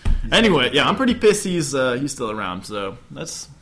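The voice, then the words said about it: Raised, louder voice. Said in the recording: “you raised your voice a little bit there”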